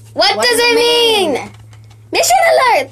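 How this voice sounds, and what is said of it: Yelling. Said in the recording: “Wait, why are we yelling? ... stop yelling ... I'm yelling”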